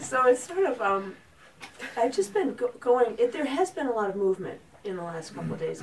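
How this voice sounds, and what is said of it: Hoarse, strained voice. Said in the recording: “my voice is hoarse... I yelled so much that I lost... You lost your voice.”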